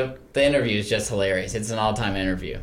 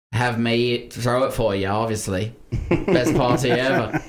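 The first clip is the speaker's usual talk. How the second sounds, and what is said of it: Weak Australian accent, sounds British. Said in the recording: “That's not a good Australian accent. ... I thought that sounded more British.”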